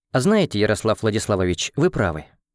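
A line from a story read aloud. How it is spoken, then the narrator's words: Smiling. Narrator (Russian): улыбнулась Полина Тихоновна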